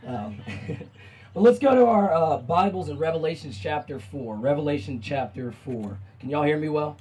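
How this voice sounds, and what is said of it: Strained, worn-out hoarse voice. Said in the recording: “as you can hear it already, my voice is a bit shot”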